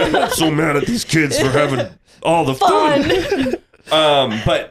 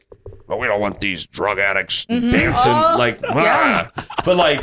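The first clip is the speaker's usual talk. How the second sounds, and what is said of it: Imitates another person's voice. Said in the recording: “That was good. Impersonation.”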